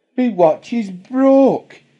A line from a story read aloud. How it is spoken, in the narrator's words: he cried in anguish